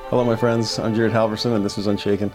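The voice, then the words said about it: Deep, gravelly voice from a cold. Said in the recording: “I've got a cold that I've been fighting all week, so please forgive me for the sound of my voice ... it adds about an octave to my voice in the downward direction ... that gravelly bass”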